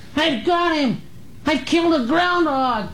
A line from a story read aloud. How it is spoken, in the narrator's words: a high-pitched, excited boy's voice yelled from the thicket